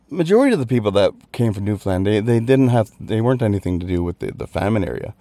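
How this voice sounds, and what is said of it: Newfoundland Canadian accent. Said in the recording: “you're not from around the Dublin area. You've got an accent ... I'm from Newfoundland, Canada”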